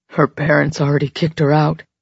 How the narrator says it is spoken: he said roughly

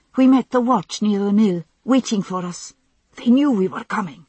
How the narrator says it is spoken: he gasped

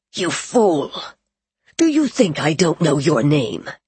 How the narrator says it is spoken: said harshly

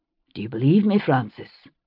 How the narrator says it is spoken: he said quietly

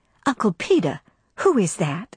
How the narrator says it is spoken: she whispered

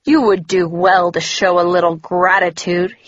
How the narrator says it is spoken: he sneered again

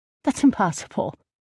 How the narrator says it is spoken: I scoffed

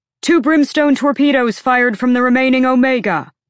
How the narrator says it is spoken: a sailor shouted

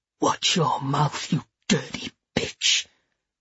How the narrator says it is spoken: he whispered

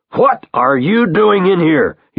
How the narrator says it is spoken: he yells at Peter

